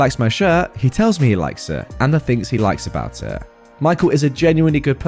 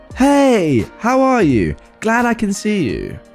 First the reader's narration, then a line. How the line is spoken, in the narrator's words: he yells very loudly